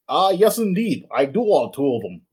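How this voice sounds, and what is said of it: Put-on Russian-Dutch mixed accent. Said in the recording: “That's an interesting accent you have there, sir... it sounds like a mix of Russian and a little bit of Dutch”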